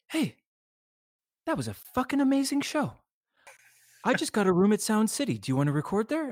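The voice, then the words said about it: Imitates another person's voice. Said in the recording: “I'm going to do a terrible impression of him”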